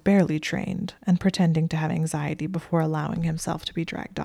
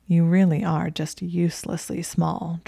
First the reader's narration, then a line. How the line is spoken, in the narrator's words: Draco said, his voice a soft drawl behind her